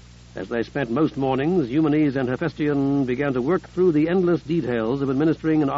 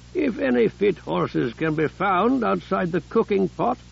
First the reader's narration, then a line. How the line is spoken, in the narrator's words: Hephaestion joked grimly